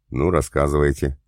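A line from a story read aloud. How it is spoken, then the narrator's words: Wry grunt. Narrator (Russian): хмыкнул я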